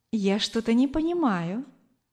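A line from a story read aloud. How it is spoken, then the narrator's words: Gentle, affectionate. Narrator (Russian): ласково сказала женщина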